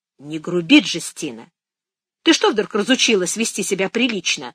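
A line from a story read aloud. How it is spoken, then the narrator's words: Stern question. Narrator (Russian): строго спросила Фиа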